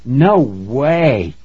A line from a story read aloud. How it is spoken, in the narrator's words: Tracy cried